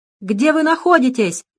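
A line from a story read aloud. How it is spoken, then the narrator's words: Almost shouting. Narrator (Russian): почти закричал Арчил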